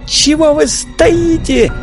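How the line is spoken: Shriek. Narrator (Russian): взвизгнула Вера

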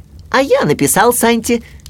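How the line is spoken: Shout. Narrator (Russian): крикнул Ру

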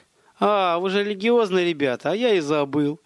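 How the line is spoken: Laughing bandit. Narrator (Russian): хохотнул бандит

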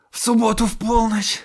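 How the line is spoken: Hoarse. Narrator (Russian): хрипло повторил он

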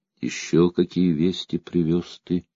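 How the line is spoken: Quiet question. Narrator (Russian): тихо спросила Анна

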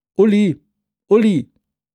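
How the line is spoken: Calling out. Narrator (German): rief

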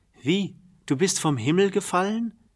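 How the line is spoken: Called out. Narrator (German): rief er

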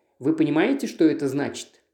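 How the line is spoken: Plain. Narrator (Russian): спросил

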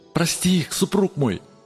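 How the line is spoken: Pleading voice. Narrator (Russian): умоляющим голосом промолвила она

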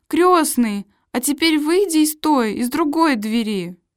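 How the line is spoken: Impatient exclamation. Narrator (Russian): Фриц в нетерпении воскликнул

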